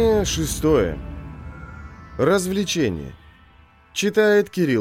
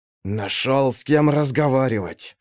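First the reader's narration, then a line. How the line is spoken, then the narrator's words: Hiss. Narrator (Russian): прошипел сыщик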